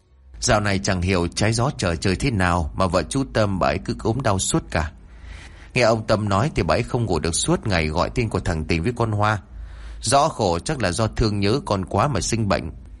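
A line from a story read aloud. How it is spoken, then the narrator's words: Sighing speech. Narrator (Vietnamese): Bà Lan thở dài rồi nói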